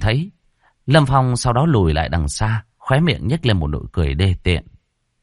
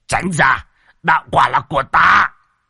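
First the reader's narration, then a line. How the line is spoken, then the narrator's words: Old man roaring. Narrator (Vietnamese): Một lão đầu cũng gầm lên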